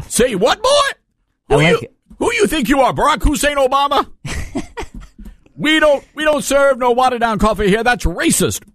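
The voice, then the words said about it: Put-on barista voice, mixed accents. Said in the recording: “I think you're mixing the accents. ... this is my barista voice”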